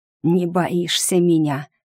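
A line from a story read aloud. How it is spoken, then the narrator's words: Hissing. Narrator (Russian): прошипел Филипп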